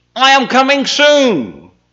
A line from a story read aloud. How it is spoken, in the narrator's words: cried out